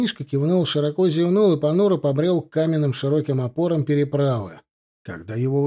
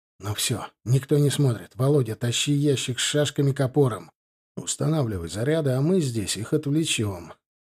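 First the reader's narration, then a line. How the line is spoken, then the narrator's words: Quiet mutter. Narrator (Russian): он тихо пробормотал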